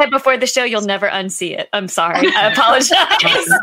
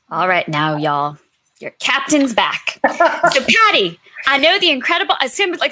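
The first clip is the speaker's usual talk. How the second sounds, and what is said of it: Put-on Southern American accent. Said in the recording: “still talking in my horrible Southern accent ... It was really good”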